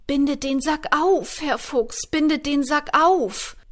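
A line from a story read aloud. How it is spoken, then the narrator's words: Cat calling out. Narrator (German): rief die Katze ihm zu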